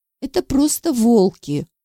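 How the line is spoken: Tired reply. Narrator (Russian): устало ответила я

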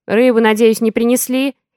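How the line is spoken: Menacing call from behind. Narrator (Russian): Грозно несется мне вслед

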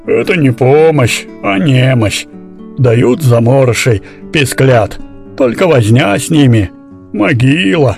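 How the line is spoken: Grumbling. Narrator (Russian): проворчала

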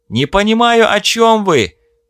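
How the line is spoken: Shouted reply. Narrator (Russian): прокричал в ответ Стив

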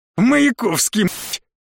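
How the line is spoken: Pleased guffaw. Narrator (Russian): всхохотнул довольный Владимир

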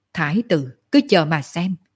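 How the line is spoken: Smiling. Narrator (Vietnamese): Sở Dương mỉm cười

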